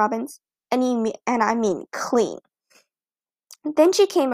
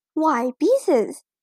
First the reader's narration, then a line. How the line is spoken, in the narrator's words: exclaimed